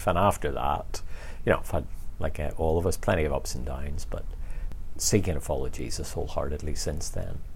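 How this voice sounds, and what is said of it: Northern Irish Belfast accent. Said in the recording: “from your accent, yes, you grew up in Belfast”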